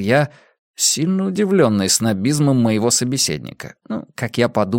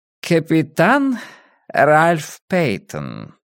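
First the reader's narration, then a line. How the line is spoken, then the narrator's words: Purring. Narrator (Russian): промурлыкал мой сосед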